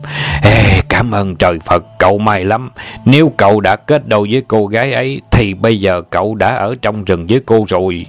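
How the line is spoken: Relieved sigh. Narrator (Vietnamese): Sáu thở dài, thở phào nhẹ nhõm

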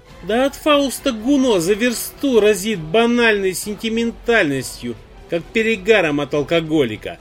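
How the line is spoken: Scoffing. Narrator (Russian): хмыкнул сосед

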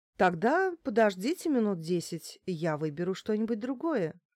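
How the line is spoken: Calm. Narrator (Russian): ответила спокойно

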